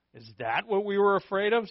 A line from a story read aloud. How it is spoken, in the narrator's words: said another